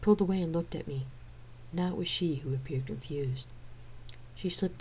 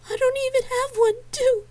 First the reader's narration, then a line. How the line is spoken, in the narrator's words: cried